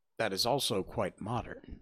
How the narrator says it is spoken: said the lady

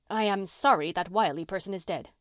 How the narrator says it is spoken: said Susan fiercely

